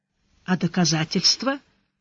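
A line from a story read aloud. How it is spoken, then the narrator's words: Tired question. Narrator (Russian): устало спросил Сварог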